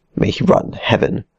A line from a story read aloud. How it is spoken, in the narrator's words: Alvardo added to the thought hastily